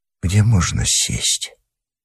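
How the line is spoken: Very quiet, almost whisper. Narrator (Russian): Я сказал совсем тихо, почти шепотом

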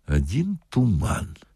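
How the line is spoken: Said quietly. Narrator (Russian): сказал милиционер тихо дежурному

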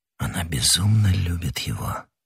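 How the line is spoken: Whisper. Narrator (Russian): прошептал он

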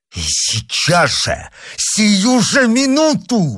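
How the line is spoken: Exclaiming. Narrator (Russian): воскликнул герцог

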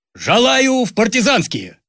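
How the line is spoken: Proud loud shout. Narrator (Russian): Ленька Шнурков с гордо поднятой головой громко выкрикнул

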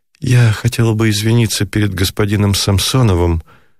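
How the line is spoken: Guilty voice. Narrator (Russian): продолжала госпожа Герберт виноватым голосом

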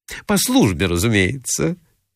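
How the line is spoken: Cheeky blurt. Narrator (Russian): выскочила дерзкая Филисата Михайловна

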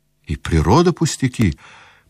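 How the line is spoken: Pensive speech. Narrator (Russian): проговорил Аркадий, задумчиво глядя вдаль

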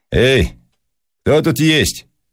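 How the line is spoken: Loud shout. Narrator (Russian): крикнул Щукин громко

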